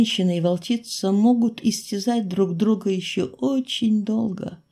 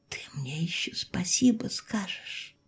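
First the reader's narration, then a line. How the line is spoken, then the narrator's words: Whisper. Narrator (Russian): прошептала я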